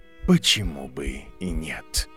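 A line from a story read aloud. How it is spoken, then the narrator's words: Quiet. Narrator (Russian): тихо сказал профессор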